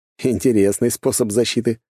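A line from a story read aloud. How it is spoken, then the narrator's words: Snorting. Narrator (Russian): хмыкнул я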